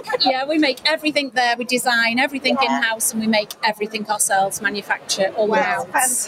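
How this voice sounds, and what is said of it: Liverpool area English accent. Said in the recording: “You can probably tell by my accent, we're from near Liverpool.”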